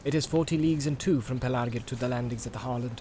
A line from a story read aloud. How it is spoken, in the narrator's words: said